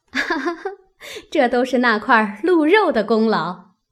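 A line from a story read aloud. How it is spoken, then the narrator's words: Group laughing. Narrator (Chinese): 都笑道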